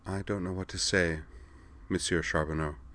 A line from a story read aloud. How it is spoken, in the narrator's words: said, her voice hushed